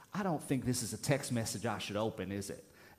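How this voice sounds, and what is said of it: Deep Southern accent, elderly woman. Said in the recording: “in her very nice, deep Southern accent”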